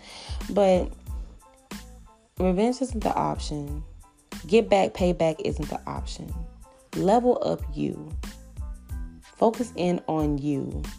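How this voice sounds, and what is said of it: Tired-sounding voice. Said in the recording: “excuse my voice if I sound tired. I'm not even tired. I don't know why I sound like this.”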